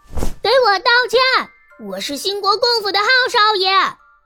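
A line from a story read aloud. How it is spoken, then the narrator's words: Aggressive, loud. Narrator (Chinese): 邵元浩气势汹汹地大声道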